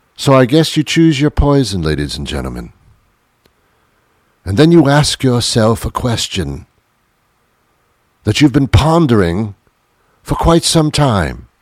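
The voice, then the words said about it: Put-on British accent. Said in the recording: “Why do I have a British accent when I'm not from England at all? ... I'm from New York, now living in Massachusetts. Why am I talking like this?”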